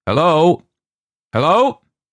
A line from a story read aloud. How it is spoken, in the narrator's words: He went up to the broken pane and shouted